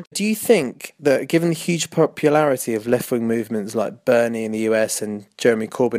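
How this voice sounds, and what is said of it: London British accent. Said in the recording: “This is ... from London ... I know you love the accent”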